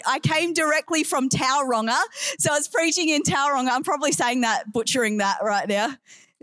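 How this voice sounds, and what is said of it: Australian accent. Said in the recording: “The Aussie accent”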